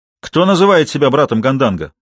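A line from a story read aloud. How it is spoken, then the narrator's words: Demanding ringing young commanding voice. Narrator (Russian): Требовательно спросил он звонким юношеским голосом, в котором чувствовались властные интонации человека, привыкшего повелевать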